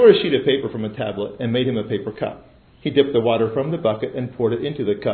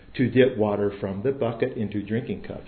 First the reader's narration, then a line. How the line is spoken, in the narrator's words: I said